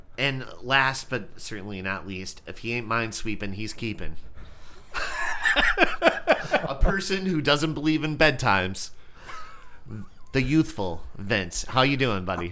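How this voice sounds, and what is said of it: Sick, deeper congested voice. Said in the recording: “The sexiness in your voice is due to the influenza virus ... you sound great. It's a little bit deeper. You got me like an octave lower.”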